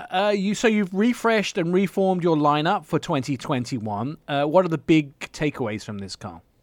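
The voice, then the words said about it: Speaks with a noticeable accent. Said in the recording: “they still don't understand my accent”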